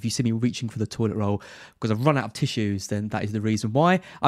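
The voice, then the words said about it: Congested voice from a cold. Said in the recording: “I've got a cold ... better than you by the sounds of it ... maybe the most understandable person on the podcast”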